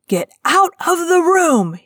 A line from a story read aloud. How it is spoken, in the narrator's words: he shouted